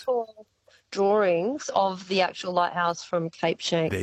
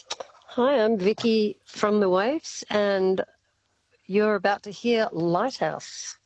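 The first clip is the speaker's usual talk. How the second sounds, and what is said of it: Radio announcer voice. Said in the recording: “put on your best radio announcer voice”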